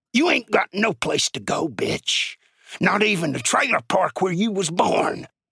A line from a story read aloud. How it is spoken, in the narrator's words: growled into her ear